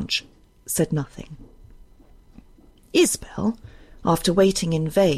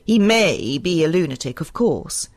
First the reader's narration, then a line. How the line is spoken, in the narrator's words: said Blanche in her driest tone